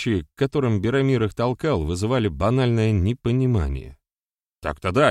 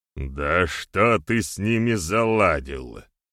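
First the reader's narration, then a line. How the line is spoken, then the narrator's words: Snorting. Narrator (Russian): фыркнул Барята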